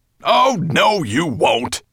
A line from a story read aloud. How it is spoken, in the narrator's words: said Nettlebrand crossly